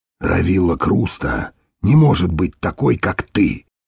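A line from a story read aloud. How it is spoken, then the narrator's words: Quiet. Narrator (Russian): тихо проговорил Дитер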